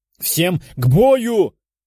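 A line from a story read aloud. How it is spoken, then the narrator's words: Shouted. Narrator (Russian): выкрикнул Золотой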